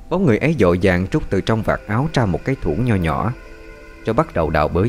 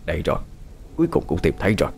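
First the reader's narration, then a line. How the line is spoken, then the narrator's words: Soft, smug old voice. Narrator (Vietnamese): Bóng người già nua khẽ treo lên đắc ý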